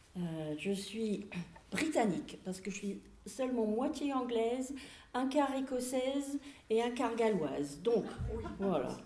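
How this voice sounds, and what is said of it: British accent in French. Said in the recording (French): “ça c'est un nom britannique, comme vous pouvez entendre dans mon accent.”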